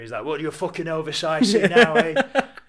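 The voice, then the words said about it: Thick Sheffield accent. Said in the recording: “In that thick Sheffield accent.”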